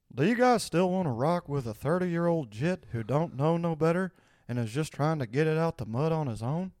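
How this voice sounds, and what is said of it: Hank Hill impression. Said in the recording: “You guys still like my Hank Hill impression? ... You always nail it first try. It's truly, it is impressive.”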